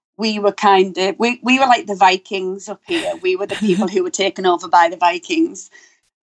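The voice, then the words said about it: Northeast English accent, Scottish-tinged. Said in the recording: “I'm in the very northeast of England ... I have quite a unique accent ... it's like English meshed with Scottish ... we have these really bizarre accents up here”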